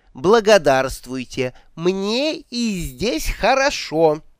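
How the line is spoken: Slow and loud. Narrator (Russian): повторила она медленно и громко

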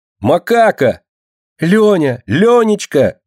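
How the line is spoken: Joyful cry. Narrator (Russian): радостно вскрикнула мышка

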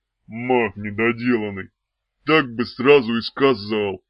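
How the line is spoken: Hoarse voice. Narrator (Russian): произнес он сипло

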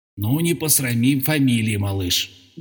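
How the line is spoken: Silent inner whisper. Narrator (Russian): беззвучно шептал он под черепом

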